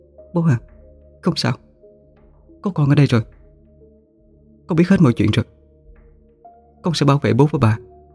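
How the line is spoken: Soft, emotional speech. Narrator (Vietnamese): Khanh xúc động khẽ nói

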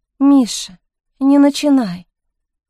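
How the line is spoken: Gentle scolding. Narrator (Russian): ласково пожурила его Мариэлла

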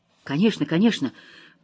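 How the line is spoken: Muttering, calming down. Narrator (Russian): пробормотала она, слегка успокаиваясь

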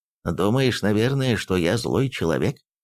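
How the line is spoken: Plain. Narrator (Russian): спросил консул

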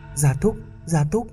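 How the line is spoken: Trembling whimper. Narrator (Vietnamese): Hoàng Thượng Chí nghe nói run rẩy rên rỉ

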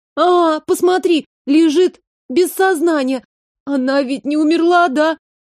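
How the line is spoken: Sobbing. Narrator (Russian): Продолжала всхлипывать Маришка

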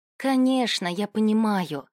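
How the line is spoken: Sad sigh. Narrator (Russian): грустно вздохнула Арисия

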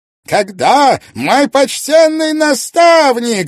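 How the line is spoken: Sudden thunderous voice. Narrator (Russian): вдруг прогремел мистер Дюшемен

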